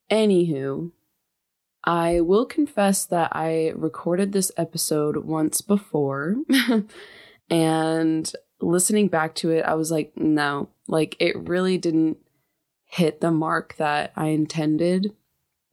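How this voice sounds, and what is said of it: Slightly nasal voice. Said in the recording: “my voice may sound a little different today ... I just kind of woke up a little bit nasally”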